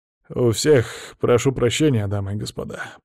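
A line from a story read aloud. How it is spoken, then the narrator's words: Muttered. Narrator (Russian): пробормотал он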